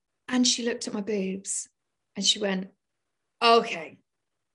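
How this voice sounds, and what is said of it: Usual voice. Nothing is said of it.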